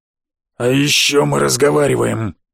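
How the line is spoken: Booming, muffled through helmet. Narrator (Russian): прогудел сквозь дырявый шлем один рыцарь

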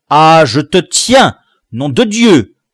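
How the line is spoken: Roared. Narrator (French): rugissait-il

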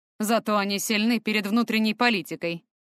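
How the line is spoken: Scoffing grunt. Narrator (Russian): хмыкнул Фортем

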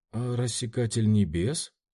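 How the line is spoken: Timid. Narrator (Russian): робко кивнула она

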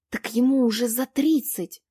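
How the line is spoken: Girl's dramatic whisper. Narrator (Russian): страшным шепотом сказала девушка

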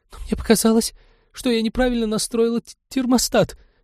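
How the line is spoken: Guilty babbling. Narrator (Russian): виновато залепетала ученая

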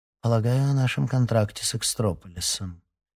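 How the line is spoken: Quiet reply. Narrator (Russian): тихо ответила ее компаньонка

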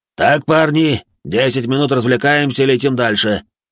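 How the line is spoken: Shouted. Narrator (Russian): крикнул батя

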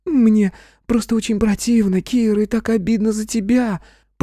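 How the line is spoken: Squeaky reply. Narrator (Russian): пропищала в ответ эта тупая сука

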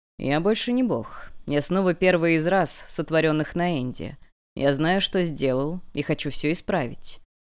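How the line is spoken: Calm reply. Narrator (Russian): спокойно ответил

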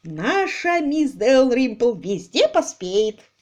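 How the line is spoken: Said happily. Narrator (Russian): радостно сказал Пайпер

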